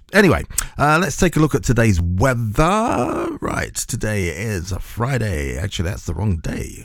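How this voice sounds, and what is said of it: Croaky, hoarse voice. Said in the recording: “I'm losing my voice again ... The voice gets a bit croaky”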